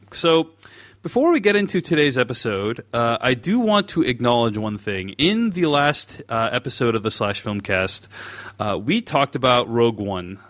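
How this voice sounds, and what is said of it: Voice rougher than usual. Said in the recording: “my voice is a little bit crappier than usual”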